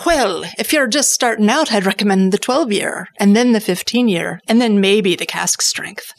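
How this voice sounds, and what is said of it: Decent imitated Irish accent. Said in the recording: “pretty decent Irish yeah, accent, by the way. ... Yeah, that was impressive.”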